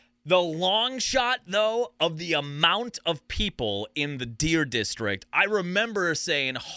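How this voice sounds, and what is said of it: Usual voice. Nothing is said of it.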